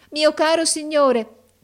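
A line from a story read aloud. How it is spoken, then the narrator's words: Shouted while entering. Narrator (Italian): gridò essa entrando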